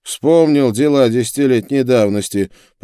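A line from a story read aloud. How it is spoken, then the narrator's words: Grumbled. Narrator (Russian): проворчал он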